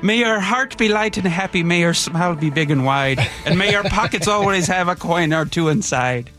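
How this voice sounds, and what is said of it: Put-on Irish accent. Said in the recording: “That's not a bad Irish accent”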